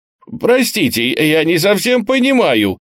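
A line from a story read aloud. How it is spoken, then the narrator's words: Bewildered stammering. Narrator (Russian): пролепетал оторопевший лейтенант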